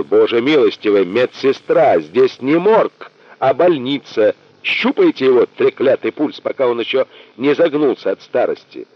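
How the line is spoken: Shouting. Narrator (Russian): режиссер закричал

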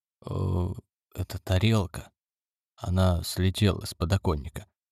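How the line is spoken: Whisper. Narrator (Russian): прошептал Механ

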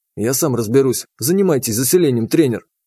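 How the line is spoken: Whisper. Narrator (Russian): шепнул я

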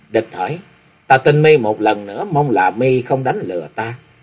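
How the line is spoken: Rueful resigned muttering. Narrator (Vietnamese): mặt thoáng hiện vẻ bất đắc dĩ, nhếch môi cười áo não lại lẩm bẩm nói

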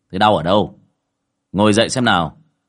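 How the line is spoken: Stern voice. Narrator (Vietnamese): Cậu Tẩy nghiêm giọng

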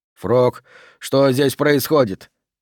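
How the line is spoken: Hoarse, strained, struggling. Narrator (Russian): просипел Д'Агоста, пытаясь вырваться из лап морщинников

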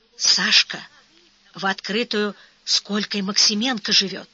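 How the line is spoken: Whispered. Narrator (Russian): домашние приживало шепнули

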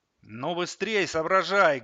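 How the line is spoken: Startling loud bark. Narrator (Russian): гаркнул Саватеев так, что все снова вздрогнули

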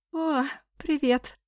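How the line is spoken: Sleepy. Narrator (Russian): сонно сказала

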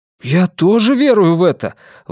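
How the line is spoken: Enthusiastic exclamation. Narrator (Russian): воодушевленно воскликнул

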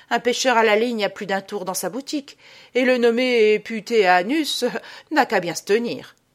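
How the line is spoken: Exclaiming. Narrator (French): s'écria Théophraste

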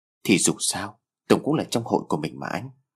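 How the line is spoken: Sad soft voice. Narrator (Vietnamese): Lan đôi mắt có vẻ hơi buồn bã, cô nói giọng nhỏ nhẹ

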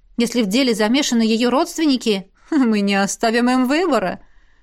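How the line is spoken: Wry snort. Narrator (Russian): хмыкнула ректор

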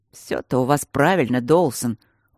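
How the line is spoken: Glum. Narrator (Russian): уныло сказал Дармоншир

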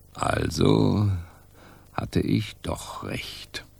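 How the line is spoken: Murmured, male. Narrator (German): murmelte er

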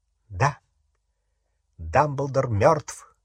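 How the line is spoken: Calm reply. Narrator (Russian): спокойно откликнулся Гарри

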